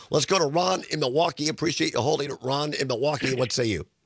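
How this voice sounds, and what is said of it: Hoarse, froggy voice. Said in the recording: “I got a frog in my throat today, too. ... I'm sorry for the voice”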